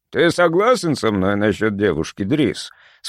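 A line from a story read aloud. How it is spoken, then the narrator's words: Plain. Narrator (Russian): спросил мистер Вильсон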